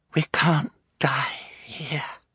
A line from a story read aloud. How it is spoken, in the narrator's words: Violet said, her voice so feeble her siblings could scarcely hear her